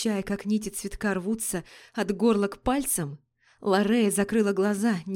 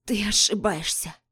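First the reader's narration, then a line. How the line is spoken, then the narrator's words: Exhausted rasp. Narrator (Russian): Прохрипела обессиленная Триада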